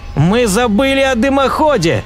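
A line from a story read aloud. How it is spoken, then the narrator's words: Shout. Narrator (Russian): закричал профессор Кин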